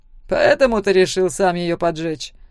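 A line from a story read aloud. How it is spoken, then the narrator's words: Snorting. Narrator (Russian): хмыкнул Зак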